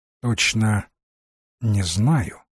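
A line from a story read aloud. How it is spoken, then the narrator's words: Plain. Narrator (Russian): ответил Рэнсом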